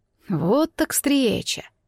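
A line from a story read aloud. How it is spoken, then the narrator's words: Muttering dragon. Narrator (Russian): пробормотал мой знакомый дракон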